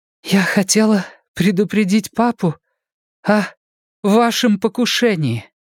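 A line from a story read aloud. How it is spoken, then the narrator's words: Breathless exhale. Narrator (Russian): выдохнула Энея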